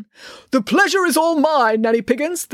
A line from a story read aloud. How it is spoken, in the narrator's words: the colonel called out from his gunnery position